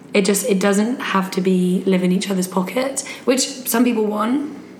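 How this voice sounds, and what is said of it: Speaks with a distinct accent. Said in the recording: “I love it in your accent.”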